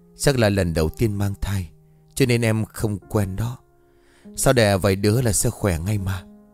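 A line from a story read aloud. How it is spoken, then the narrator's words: Soft smiling. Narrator (Vietnamese): Vũ Thành vừa mỉm cười rồi khẽ nói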